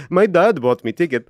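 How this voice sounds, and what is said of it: Bad put-on Dutch or Danish accent. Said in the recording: “Terrible accent.”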